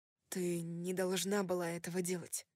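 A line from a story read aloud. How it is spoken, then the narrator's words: Muttered. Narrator (Russian): пробормотал я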